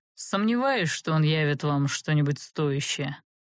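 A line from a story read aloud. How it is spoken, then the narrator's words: Tired forced smirk. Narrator (Russian): устало через силу усмехнулся Верес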